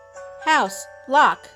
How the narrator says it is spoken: stated loudly

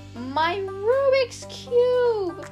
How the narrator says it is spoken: screamed

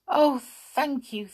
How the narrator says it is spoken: cried the children in delight

